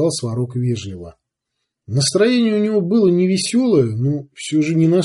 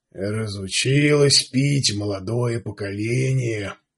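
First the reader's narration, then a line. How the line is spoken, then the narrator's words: Grumbling. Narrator (Russian): ворчал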